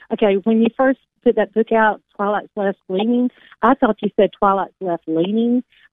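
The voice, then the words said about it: Fast-talking Southern American accent. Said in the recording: “You can tell I'm Southern, huh? But I'm a fast talking Southerner.”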